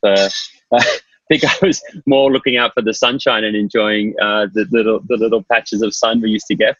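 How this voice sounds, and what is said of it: Australian accent. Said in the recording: “it's fair to say by the accent that you're not actually from New York ... I'm Australian”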